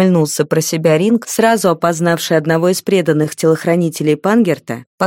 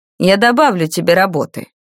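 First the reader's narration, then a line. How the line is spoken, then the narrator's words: Menacing announcement. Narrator (Russian): с угрозой возвестил темный маг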